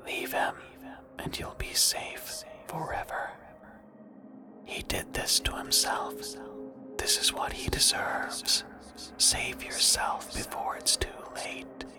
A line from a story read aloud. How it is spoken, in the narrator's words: She whispered